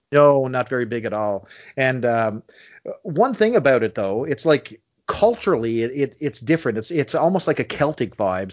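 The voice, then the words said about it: Newfoundland accent. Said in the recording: “dialect. And I'm sure you can hear it from me ... Accent? ... Yes, your accent. There's different varieties of Newfoundland accent.”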